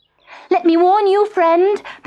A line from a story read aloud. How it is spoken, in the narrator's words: panted Puss